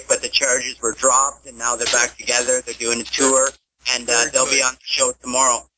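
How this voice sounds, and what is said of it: Canadian accent. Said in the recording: “You sound like you have a Canadian accent.”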